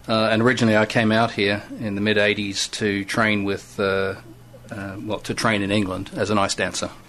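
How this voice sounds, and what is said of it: Australian accent. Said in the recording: “I'm Australian born, you probably guessed by the accent.”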